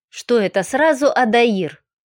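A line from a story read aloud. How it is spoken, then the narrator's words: Indignant grumbling. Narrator (Russian): возмущенно проворчал повар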